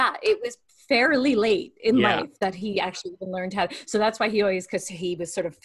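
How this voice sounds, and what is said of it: Usual voice. Nothing is said of it.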